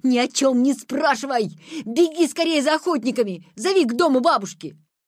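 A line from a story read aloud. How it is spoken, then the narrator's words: Shouting with all strength. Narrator (Russian): закричал изо всех сил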